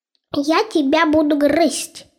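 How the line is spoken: Plain, small mouse. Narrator (Russian): сказал мышонок

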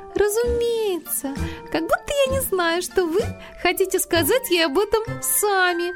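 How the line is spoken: Cheerful, over shoulder. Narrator (Russian): весело бросила она через плечо

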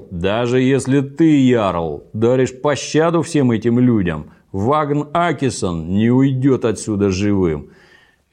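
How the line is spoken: Angry roar. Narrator (Russian): Торкель Глина был во гневе и проревел

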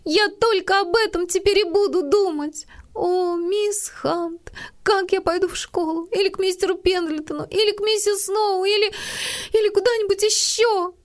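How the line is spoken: Gasping, desperate sobbing. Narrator (Russian): Она с трудом хватала ртом воздух и отчаянно рыдала

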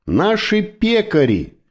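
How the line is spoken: Shouting. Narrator (Russian): Керим прокричал

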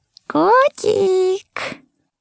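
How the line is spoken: Sweet pleading elf. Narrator (Russian): милым голосом попросил эльф

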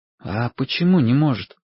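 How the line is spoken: Quiet question. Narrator (Russian): тихо спросил Вашек

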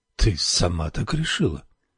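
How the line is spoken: Deliberately calm voice. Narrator (Russian): осведомился нарочито спокойным голосом

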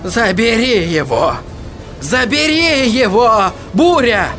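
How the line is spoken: Shout. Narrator (Russian): Он закричал

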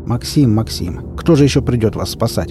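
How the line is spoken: Grumbled. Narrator (Russian): пробурчал я

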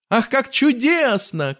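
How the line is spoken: Shouting. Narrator (Russian): кричал Уильям

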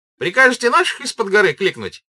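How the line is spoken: Shouting. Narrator (Russian): крикнул он

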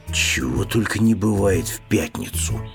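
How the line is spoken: Mumbling bear cub. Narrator (Russian): пробормотал медвежонок

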